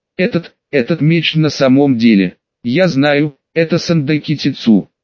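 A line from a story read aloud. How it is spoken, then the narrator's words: Calm. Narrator (Russian): Рон спокойно сказал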